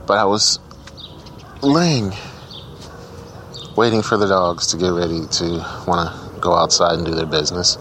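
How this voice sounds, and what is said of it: Tired-sounding voice. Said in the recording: “I sound so tired. ... I didn't get a lot of sleep, so I'm tired.”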